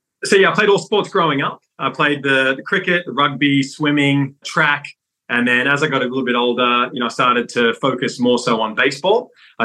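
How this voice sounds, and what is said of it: Australian accent. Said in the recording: “your accent is clearly not American ... I was born and raised in Sydney”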